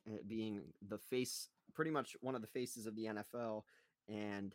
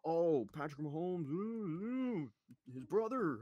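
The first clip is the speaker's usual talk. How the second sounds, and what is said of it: Impression of NFL fans. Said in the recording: “a very good impression of the entire NFL fan base”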